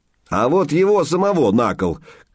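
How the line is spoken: Shouting. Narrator (Russian): крикнул кто-то из гриди

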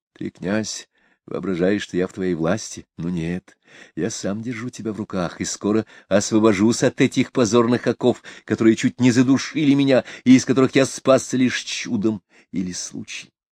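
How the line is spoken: Grim threatening whisper. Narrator (Russian): Ушаков с мрачным и угрожающим видом прошептал

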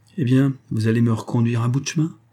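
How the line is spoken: Plain. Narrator (French): dit-il

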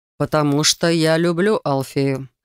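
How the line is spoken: Calm and clear. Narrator (Russian): спокойно и четко ответил Рейган

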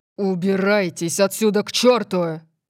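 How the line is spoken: Barking. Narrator (Russian): Рявкнул он

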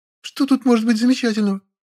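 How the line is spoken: Squeak. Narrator (Russian): пискнула Маша, глаза ее подозрительно заблестели

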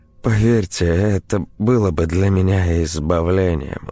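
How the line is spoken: Weary. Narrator (Russian): устало произнесла Ксения

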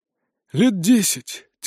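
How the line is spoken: Heavy sigh. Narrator (Russian): тяжело вздохнул Нардис

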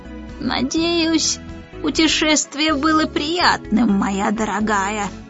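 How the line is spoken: Creaky voice. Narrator (Russian): проскрипел он

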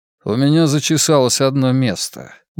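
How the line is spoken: Mumbled grumble. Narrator (Russian): буркнул я

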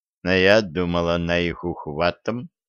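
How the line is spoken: Mumbling. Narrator (Russian): пробормотал Виталик

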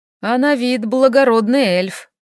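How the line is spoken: Sighing. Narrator (Russian): вздохнул вампир

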